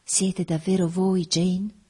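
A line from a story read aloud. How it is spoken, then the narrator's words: Sweet voice. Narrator (Italian): mi domandò con la sua voce dolce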